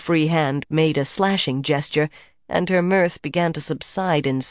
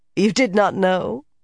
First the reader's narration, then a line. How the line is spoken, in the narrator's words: laughing